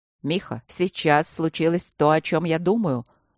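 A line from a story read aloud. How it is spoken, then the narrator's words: Sharp question. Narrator (Russian): резко спросил Трот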